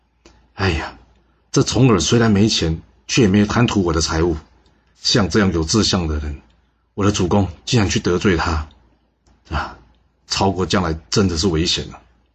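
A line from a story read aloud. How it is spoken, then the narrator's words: Sighing lament. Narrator (Chinese): 西夫基感叹道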